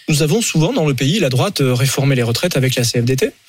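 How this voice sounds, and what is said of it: Slight southwestern French regional accent. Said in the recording (French): “le petit accent du Lot”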